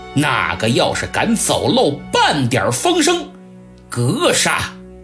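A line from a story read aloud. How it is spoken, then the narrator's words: Stern, harsh. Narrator (Chinese): 鲁肃厉声说道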